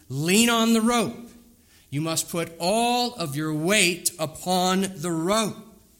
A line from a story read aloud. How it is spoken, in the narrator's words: the guide turned around and he yelled back to this man in that native tongue